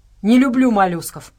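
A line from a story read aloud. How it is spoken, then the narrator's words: Grumbling. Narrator (Russian): проворчал Хендер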